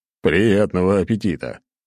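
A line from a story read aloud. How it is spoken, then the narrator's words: Short laugh. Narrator (Russian): хохотнул я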